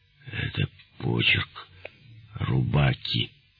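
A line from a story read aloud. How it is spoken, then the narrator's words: Barely audible whisper. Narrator (Russian): Жильнорман чуть слышно, как бы про себя прошептал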